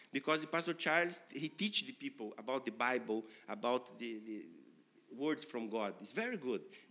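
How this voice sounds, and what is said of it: Ghanaian English accent. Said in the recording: “the accent, Ghana, English, is very, no, it's not perfect, no? And it's similar to me”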